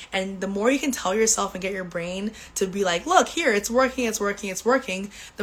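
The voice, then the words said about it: Voice not fully recovered. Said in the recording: “<clears throat> excuse me ... my voice is still not 100% back”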